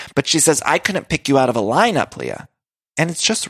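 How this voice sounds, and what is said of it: Usual voice. Nothing is said of it.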